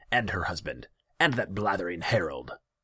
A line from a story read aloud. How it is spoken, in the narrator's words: he snapped